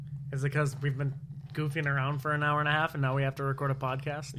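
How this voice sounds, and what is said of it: Usual voice. Nothing is said of it.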